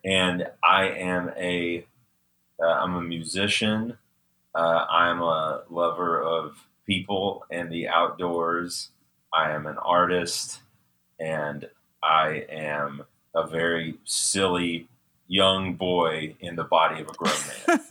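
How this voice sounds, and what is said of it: Southern US accent. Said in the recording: “I'm originally from Birmingham, Alabama. Not England. I'm not sure if you can tell by the accent.”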